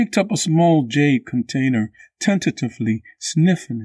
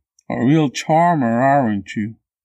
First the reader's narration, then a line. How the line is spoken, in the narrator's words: Tinkari grumbled